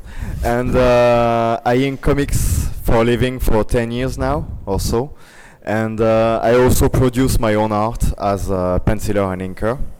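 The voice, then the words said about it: French accent. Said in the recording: “I'm French. Sorry about that ... excuse for my accent”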